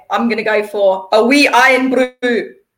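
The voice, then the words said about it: Put-on Scottish accent. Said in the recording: “I'm working on the accent ... give us your best Scottish word or phrase ... That was so good.”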